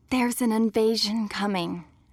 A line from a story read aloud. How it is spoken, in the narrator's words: she whispered